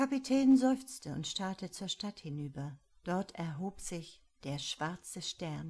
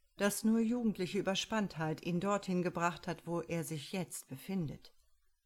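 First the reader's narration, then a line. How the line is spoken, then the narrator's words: Calm. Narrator (German): sagte ruhig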